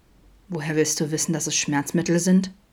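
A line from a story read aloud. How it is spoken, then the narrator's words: Calm, dangerous question. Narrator (German): fragte ruhig und gefährlich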